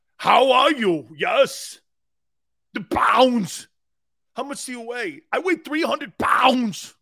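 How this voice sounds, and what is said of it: Put-on Austrian accent. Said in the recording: “when I was in Austria, I don't know why I had an accent. ... I don't know why I started doing this when I was wrestling there.”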